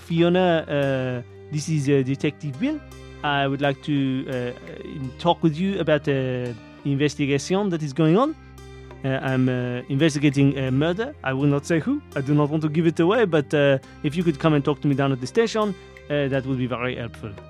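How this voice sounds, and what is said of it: Put-on French accent, weaker than usual. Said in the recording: “I haven't used my French accent yet. ... That's why the French accent isn't as good as it usually is.”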